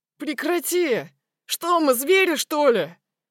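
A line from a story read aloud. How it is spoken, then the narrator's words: Shouting. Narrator (Russian): кричал он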